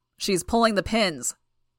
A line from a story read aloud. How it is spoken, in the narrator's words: the soldier shouted